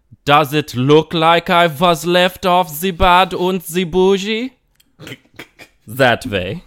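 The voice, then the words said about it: Rapping in a put-on German accent. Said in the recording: “my impression of Migos if they were German? ... That's more, I think that's a German”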